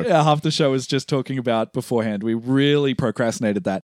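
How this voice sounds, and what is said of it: Slightly hoarse voice. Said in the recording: “my voice is a little hoarse from screaming at the TV screen ... I'm losing my voice”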